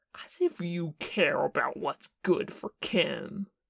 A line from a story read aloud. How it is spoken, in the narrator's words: Porsche sneered